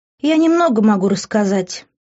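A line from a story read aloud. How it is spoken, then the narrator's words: Doomed sigh, young woman. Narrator (Russian): вздохнула обреченно девушка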